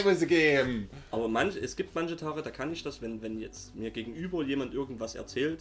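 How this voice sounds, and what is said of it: Strong Saxon German dialect. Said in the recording (German): “wir werden uns auch keine Mühe geben, unseren sächsischen Dialekt zu verbergen ... ich rede jetzt Sächsisch, also volle Bulle”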